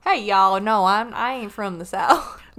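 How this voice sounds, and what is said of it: Put-on Southern American accent. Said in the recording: “Southern? Do I sound Southern? ... Every accent I try.”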